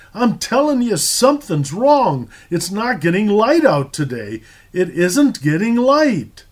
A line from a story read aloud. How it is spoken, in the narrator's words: his voice cracking in genuine terror, cried out